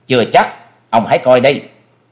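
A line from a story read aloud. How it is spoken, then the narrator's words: Angry sneering laugh. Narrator (Vietnamese): chàng càng giận dữ cười gằn một tiếng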